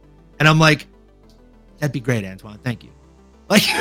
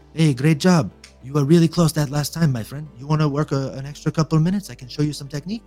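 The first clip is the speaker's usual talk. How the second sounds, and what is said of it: Put-on French accent. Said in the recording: “a French accent like that”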